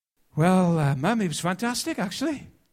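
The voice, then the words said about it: Welsh accent as Jesus. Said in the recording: “He had a Welsh accent.”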